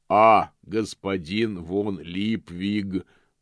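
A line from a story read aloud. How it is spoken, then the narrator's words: Booming. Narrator (Russian): прогремел господин Помпа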